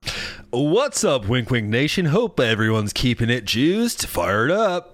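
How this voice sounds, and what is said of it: Radio announcer voice. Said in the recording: “you've really worked on your radio voice”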